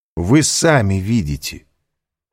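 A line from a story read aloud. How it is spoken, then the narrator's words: Firm, sharp speech. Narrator (Russian): сказал твердо, даже резко Альбер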